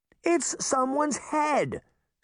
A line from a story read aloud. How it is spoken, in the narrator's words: Sabrina cried